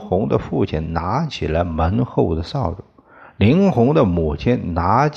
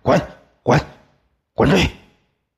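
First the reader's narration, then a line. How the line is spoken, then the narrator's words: Angry shouting. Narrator (Chinese): 林红的父母愤怒的吼叫起来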